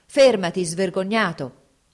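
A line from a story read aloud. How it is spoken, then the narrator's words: Shouted. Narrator (Italian): gridò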